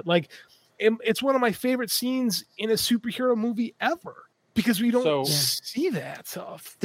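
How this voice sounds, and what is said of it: Choked-up, emotional voice. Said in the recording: “getting choked up now talking about it”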